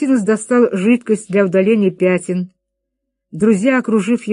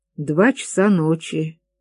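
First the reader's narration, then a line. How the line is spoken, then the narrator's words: Muttering. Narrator (Russian): пробормотал Вильянасул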